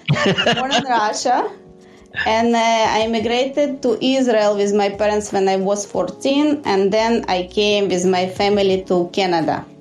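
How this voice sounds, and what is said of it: Russian accent. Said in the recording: “my background is Russian. This is, you hear my accent.”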